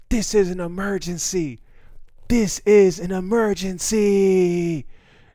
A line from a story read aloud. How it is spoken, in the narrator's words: this white lady in her like 30s starts screaming